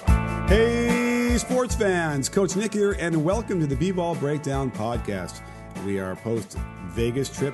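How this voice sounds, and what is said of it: Worn, strained voice. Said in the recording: “My voice is a little bit worse for the wear”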